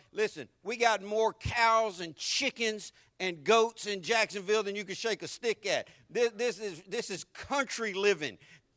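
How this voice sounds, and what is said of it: Deep Southern US accent. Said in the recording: “my accent is so deep Southern”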